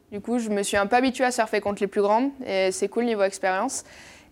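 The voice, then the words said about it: Slight southwest French accent. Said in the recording (French): “D'où le petit accent euh, du sud-ouest d'ailleurs... je l'ai, il s'entend. un, peu”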